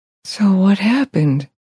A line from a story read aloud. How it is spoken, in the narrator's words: He whispered